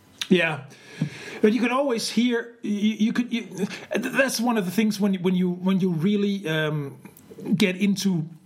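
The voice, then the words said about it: Scandinavian accent in English. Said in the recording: “I have this Scandinavian accent”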